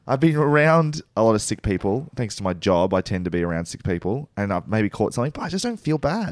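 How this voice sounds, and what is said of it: Croaky, hoarse voice. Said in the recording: “laryngitis ... Laryngitis, I guess, of some sort. I can talk still ... forgive me for my croaky voice once again”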